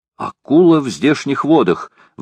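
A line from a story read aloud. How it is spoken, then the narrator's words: Exclamation. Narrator (Russian): воскликнул лорд Гленарван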